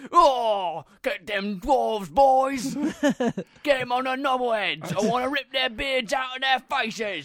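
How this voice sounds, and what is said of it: Gruff British-Australian orc character voice. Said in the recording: “orcs only have one accent ... They look like British people ... Australian thing ... This sounds like the guys from Mad Max”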